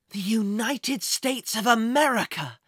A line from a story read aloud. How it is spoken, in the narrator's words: Jack gasped with excitement